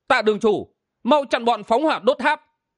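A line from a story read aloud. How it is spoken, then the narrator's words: Joyful cry. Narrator (Vietnamese): Bạch Thiên Vân mừng rỡ kêu lên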